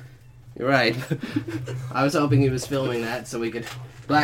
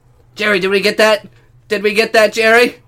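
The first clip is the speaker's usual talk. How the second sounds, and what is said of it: Yelling. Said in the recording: “you're yelling”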